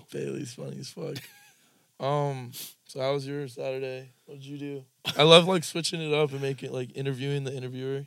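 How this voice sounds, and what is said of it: Raspy, strained voice. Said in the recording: “My voice, dude. This is like annoying. ... The fucking raspy, like, bullshit. ... I need ... To, like, drink some tea or something.”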